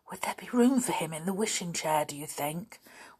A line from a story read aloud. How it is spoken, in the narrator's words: whispered Molly to Binkie